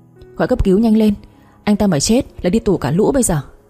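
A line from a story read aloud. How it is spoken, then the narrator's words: Urgent shout. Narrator (Vietnamese): Lã, miệng hét lên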